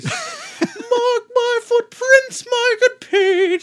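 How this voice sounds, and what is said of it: High-pitched singing voice. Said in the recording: “They do it this high singing voice.”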